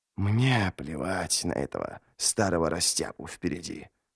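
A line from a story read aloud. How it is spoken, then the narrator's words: Wheezing. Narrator (Russian): хрипел Ничто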